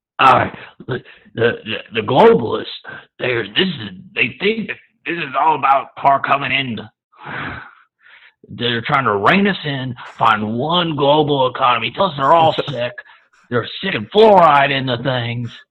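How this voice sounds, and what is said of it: Alex Jones impression. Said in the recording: “your best Alex Jones impression”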